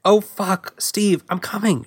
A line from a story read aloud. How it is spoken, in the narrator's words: she cried as she shuddered